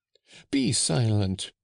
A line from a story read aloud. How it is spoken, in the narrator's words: exclaimed Joseph